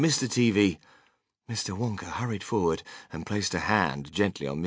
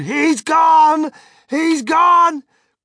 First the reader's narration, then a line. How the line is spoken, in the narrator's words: her great red mouth opened wide, and she screamed